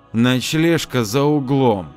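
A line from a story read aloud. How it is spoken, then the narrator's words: Through gritted teeth. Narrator (Russian): Ада процедила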